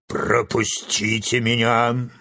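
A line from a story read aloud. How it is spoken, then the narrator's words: Lion's barking roar. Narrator (Russian): рявкнул лев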